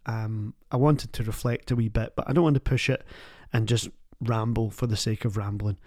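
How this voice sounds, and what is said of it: Tired voice. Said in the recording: “My voice is tired.”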